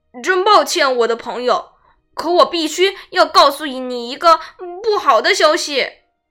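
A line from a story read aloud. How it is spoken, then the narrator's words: Sighing. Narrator (Chinese): 叹着气说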